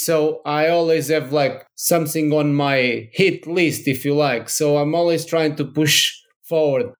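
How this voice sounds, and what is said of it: Portuguese accent. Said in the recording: “You obviously have an accent. ... you're originally from Portugal.”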